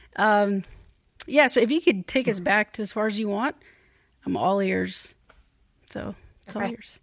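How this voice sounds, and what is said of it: Hoarse, croaky throat. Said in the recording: “forgive me if I sound like I have a frog in my throat. I've got chronic bronchitis, it seems. So my voice sounds a little goofy today”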